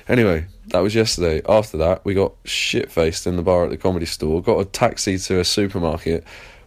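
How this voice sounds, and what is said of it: English accent. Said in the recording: “my English accent.”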